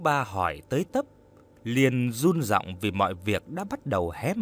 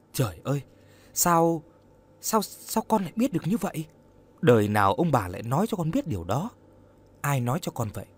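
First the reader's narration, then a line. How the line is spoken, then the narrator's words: Pale, stammering. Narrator (Vietnamese): Vũ Ba mặt tái xanh, lắp bắp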